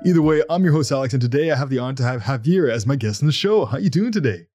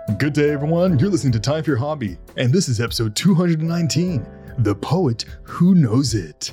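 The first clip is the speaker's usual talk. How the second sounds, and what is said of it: Announcer-style radio voice. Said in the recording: “I kind of had a like radio voice thing going on”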